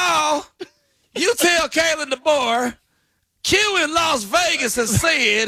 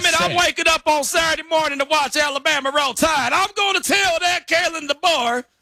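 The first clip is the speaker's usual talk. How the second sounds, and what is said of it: Put-on Southern accent. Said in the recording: “Out here speaking with a southern accent.”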